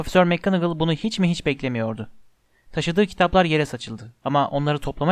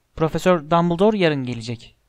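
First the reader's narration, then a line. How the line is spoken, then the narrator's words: Plain. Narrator (Turkish): dedi sonunda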